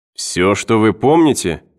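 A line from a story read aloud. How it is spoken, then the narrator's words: Exclaiming. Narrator (Russian): воскликнул Кеннер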